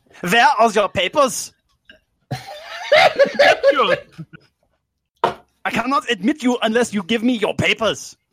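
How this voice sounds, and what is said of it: Angry put-on German accent. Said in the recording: “your best angry and normal German accent ... that sounded very Arnold Schwarzenegger”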